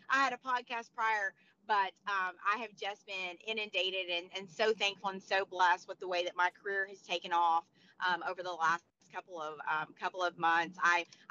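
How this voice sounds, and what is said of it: Hoarse, strained voice. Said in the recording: “I'm losing my voice right now.”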